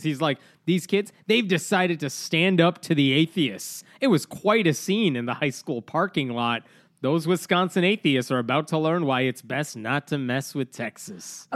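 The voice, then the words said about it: Imitates a TV news anchor. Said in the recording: “my Todd Starnes impression”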